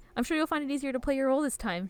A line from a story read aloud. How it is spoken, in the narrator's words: she says, excitedly